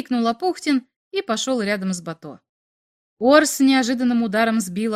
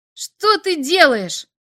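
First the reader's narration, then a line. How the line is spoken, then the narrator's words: Screamed. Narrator (Russian): завопил Апухтин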